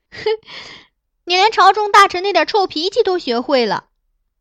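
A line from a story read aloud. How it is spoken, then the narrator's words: Laughing. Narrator (Chinese): 他抚掌笑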